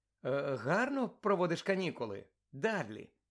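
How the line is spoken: Gentle question. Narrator (Ukrainian): запитав лагідно

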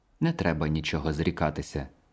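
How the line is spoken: Motherly tone. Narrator (Ukrainian): материнським тоном мовила вона

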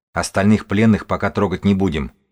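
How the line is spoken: Calm even tone. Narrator (Russian): он сообщил свое решение спокойным ровным тоном

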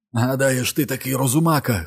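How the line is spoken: Hoarse shout. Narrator (Ukrainian): хрипко закричав

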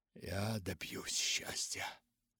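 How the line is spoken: Feverish whisper. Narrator (Russian): шептал он лихорадочно

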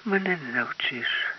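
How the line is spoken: Sighing. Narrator (Ukrainian): зітхнула Лариса

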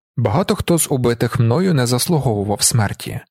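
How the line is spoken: Plain. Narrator (Ukrainian): сказав Делінар

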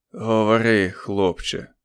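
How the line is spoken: Hoarse rasp. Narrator (Ukrainian): прохрипів Річардс

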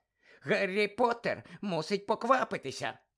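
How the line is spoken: Squeaky. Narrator (Ukrainian): пищав Добі

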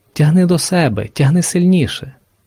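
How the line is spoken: Whispering. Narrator (Ukrainian): шепотів інший

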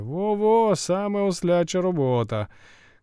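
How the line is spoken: Shout from crowd. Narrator (Ukrainian): крикнув хтось із передніх рядів

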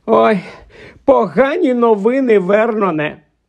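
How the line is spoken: Moaned. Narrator (Ukrainian): простогнала вона

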